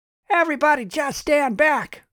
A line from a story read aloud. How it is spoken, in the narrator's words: Charles shouted